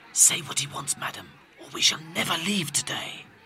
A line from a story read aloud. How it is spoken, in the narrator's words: Hortensio whispered to Catherina